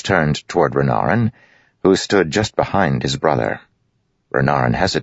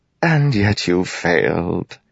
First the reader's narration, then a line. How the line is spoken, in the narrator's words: Wit said, sighing